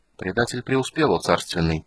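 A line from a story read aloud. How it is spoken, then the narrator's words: Quiet report. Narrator (Russian): тихо доложил драконит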